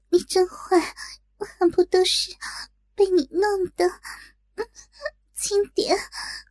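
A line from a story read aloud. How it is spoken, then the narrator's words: Shy, breathy. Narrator (Chinese): 更加羞赧，娇喘道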